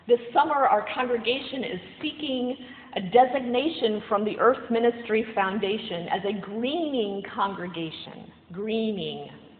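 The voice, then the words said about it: Southern accent. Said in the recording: “My southern accent's back”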